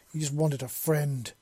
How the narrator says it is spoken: Wisp snarled in Seven's head

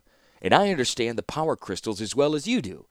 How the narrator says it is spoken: added Mishra quickly

